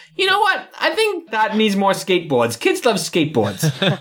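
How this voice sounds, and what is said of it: Imitates a corporate executive's voice. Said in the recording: “my impression of a board watching a kid's animated movie... my impression of every 90s kids movie ever”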